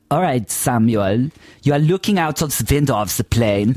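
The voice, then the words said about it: Put-on German accent, slightly camp. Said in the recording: “Is this a good accent? ... Very good. ... He's German. ... He's German and he's slightly camped.”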